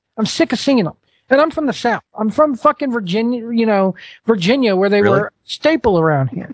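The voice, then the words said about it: Southern US accent. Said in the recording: “The fucking accent doesn't give it away ... He's from Southern Virginia ... They don't talk like you in Northern Virginia”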